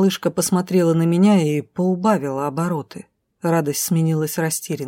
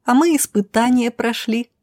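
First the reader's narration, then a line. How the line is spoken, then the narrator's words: Blurting out. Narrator (Russian): не выдержала Милена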